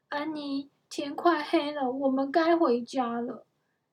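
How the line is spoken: Sighing. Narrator (Chinese): 杰克叹了一口气

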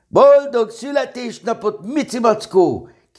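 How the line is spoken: Shouting in unison. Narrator (Hungarian): kiáltották egyszerre

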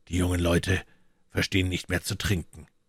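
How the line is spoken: Muttered. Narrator (German): murmelte Athos

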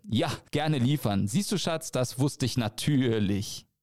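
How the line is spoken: Laughing. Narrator (German): sagte und lachte

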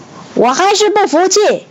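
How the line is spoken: Aggrieved shout. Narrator (Chinese): 孟获觉得非常委屈，大叫

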